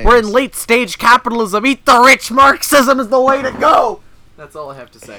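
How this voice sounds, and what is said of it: Yelled impression of student activists. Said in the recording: “when I yelled ... that was my impression of most of the people who go to Ryerson”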